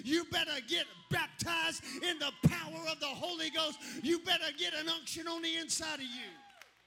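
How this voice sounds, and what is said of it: Screaming, loud preaching voice. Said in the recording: “I'm screaming because I am”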